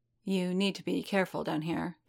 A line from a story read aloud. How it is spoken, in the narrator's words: Gita murmured